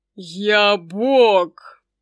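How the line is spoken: Roaring dragon. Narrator (Russian): взревел дракон

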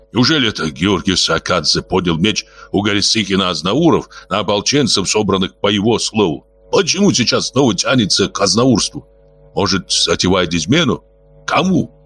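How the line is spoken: Angry shout. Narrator (Russian): Клевидзе сердито выкрикнул

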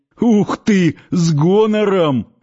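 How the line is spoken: Guffawing reply. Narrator (Russian): хохотнули в ответ

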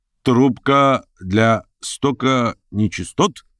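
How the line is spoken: Loud question. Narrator (Russian): громко осведомился доктор

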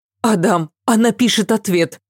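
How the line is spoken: Sudden exclamation. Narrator (Russian): вдруг воскликнула Ася

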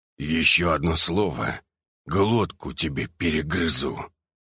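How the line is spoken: Through clenched teeth. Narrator (Russian): процедил Альфа сквозь зубы

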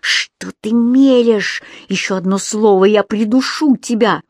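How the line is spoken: Menacing hiss. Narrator (Russian): он прошипел

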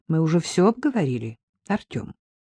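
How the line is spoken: Calm speech. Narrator (Russian): спокойно сказал Шевцов

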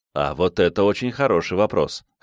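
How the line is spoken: Amused grunt. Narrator (Russian): хмыкнул я

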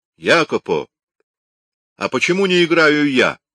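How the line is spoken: Loud question. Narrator (Russian): громко спросил Микеланджело

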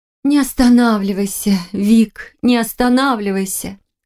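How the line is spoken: Young woman's breathless moan. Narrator (Russian): Со стоном выдохнула девушка

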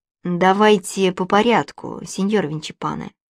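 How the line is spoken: Calm reply. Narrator (Russian): спокойно ответил Джакомо

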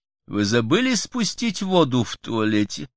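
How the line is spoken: Sarcastic. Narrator (Russian): язвительно скажет Кристина

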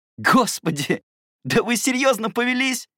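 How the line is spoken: Laughing. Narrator (Russian): рассмеялся

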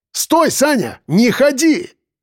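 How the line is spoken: Shout into phone. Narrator (Russian): крикнул я в трубку

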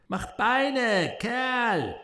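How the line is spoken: Shouting. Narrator (German): schrie

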